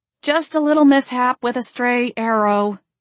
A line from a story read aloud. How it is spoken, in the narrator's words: I said through gritted teeth